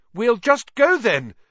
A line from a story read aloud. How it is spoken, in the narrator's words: Harry called desperately to Aragog